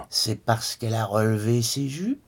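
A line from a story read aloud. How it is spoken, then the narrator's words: Father mocking, piping voice. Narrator (French): persifla le père d'une voix de flûte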